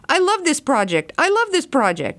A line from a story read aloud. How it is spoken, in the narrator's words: someone jumping up and down, yelling